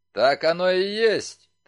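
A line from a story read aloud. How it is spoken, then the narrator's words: Solemn declaration. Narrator (Russian): торжественно заявил старший полицейский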